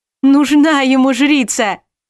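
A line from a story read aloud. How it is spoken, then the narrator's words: Yell. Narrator (Russian): завопила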